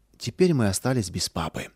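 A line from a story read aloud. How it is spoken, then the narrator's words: Quiet sorrowful sigh, mother. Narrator (Russian): Горестно вздохнув, мама тихо сказала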